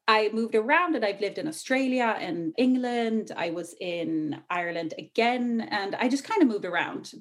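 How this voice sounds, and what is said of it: Faint Irish accent. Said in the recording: “you'll hear a hint of Irish. I actually usually had like a super thick Irish accent, but it faded over the years.”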